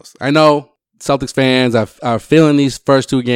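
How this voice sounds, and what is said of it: Usual voice. Nothing is said of it.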